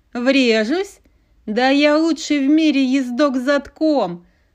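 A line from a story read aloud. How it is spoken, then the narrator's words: Chuckling. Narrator (Russian): Хохотнул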